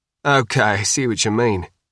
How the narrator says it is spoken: said, chuckling

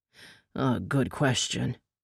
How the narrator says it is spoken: Windwolf sighed

